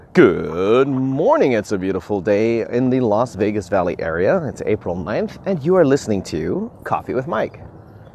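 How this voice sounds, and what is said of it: Cheesy radio announcer voice. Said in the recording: “How's that for a friggin' radio voice? Was that not cheesy?”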